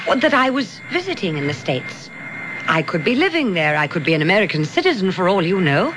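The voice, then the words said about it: Foreign, non-American accent. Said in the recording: “Have you been visiting in the States long? ... I assumed your accent.”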